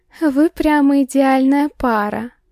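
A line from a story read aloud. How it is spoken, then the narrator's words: Dreamy drawl. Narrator (Russian): Мечтательно протянула Светка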